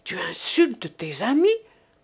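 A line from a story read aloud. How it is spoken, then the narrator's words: Angry chief's shout. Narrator (French): s'écria le chef avec colère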